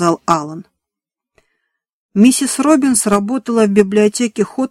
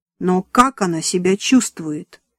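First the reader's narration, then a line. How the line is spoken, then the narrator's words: Calm question. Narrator (Russian): спокойно спросила миссис Робинс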